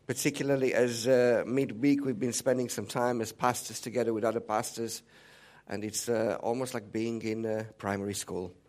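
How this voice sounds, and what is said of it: Hoarse, sick-sounding voice. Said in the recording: “I do apologize for my voice. It's inevitable that I couldn't escape the cold that is going around”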